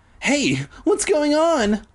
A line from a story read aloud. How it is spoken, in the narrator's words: I cried